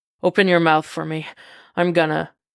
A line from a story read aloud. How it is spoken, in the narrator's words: gasps